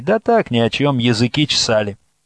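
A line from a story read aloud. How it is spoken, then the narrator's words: Reply with a chuckle. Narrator (Russian): Хохотнув, Настя ответила матери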